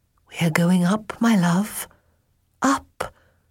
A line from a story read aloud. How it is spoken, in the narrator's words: Her voice caught